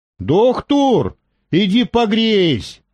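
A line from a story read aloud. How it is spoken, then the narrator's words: Shouted. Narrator (Russian): крикнул Перхуша доктору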